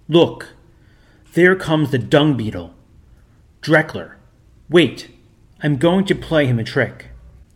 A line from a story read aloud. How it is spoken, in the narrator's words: No sooner did he perceive the visitors than he exclaimed